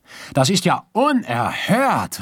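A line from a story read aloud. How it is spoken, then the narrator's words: Calling out after pause. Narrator (German): rief er nach einem Weilchen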